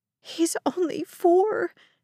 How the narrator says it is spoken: the mother sobbed

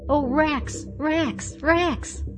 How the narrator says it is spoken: she cried

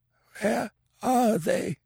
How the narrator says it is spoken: It was a racking croak, not even remotely resembling a human voice

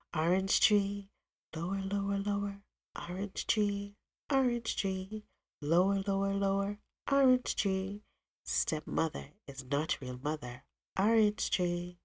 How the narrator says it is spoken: So quietly she sang

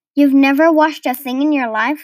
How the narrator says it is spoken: laughed the barge woman

